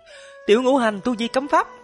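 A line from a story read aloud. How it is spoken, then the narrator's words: Terrified shriek. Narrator (Vietnamese): cô gái giống như là thấy quỷ, hoảng hốt thất thanh kêu lên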